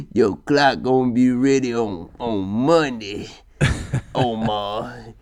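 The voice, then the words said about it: Imitates another person's voice. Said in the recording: “great impression ... you sound like you from East Baltimore, cuz”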